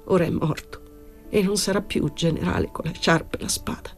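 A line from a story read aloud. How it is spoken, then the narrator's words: Tearful murmur. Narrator (Italian): Con voce di pianto il caporale mormorò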